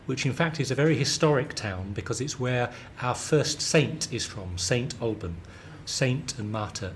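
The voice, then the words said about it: Southern English London accent. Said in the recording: “you can tell from my accent. I have a very London southern accent apparently.”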